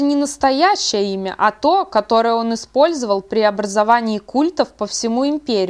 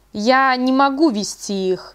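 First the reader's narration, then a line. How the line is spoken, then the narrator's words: Plain. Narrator (Russian): сказал он наконец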